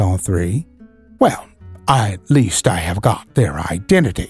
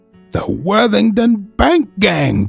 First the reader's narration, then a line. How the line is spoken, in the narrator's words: cried the inspector